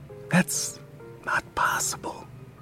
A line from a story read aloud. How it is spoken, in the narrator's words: she whispers